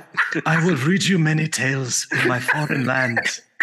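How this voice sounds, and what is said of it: Impression of a German director's voice. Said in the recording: “you guys both do such a good Werner Herzog ... I'm doing Paul F. Tompkins impersonating Werner Herzog”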